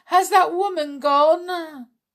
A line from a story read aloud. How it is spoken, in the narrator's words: shouted